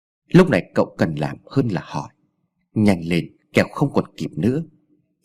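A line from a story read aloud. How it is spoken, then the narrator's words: Cold. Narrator (Vietnamese): Ông già lạnh lùng nói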